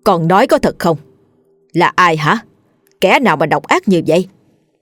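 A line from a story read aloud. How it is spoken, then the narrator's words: Angry. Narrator (Vietnamese): Bà cả tức giận nói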